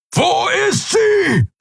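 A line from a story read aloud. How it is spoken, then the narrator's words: Bellowing. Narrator (German): brüllte er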